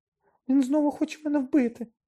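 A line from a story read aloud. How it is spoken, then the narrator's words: Sudden shriek. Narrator (Ukrainian): несподівано заверещав Петтігрю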